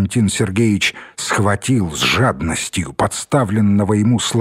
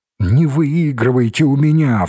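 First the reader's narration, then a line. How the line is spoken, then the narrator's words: Pleading. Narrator (Russian): взмолился Валентин Сергеевич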